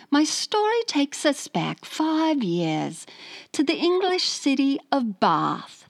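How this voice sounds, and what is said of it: Put-on British accent. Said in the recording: “So here's my British accent ... How do I do a Cockney accent?”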